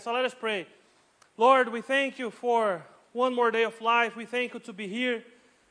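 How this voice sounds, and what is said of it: Strong accent, hard to understand. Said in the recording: “half of my message you will understand. And half of my message you need to imagine. All right, because you have no clue because of my accent.”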